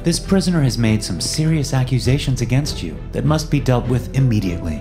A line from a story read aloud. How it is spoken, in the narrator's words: I said calmly